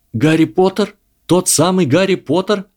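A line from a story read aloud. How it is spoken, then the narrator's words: Delighted exclamation. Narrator (Russian): с восторгом воскликнул Драко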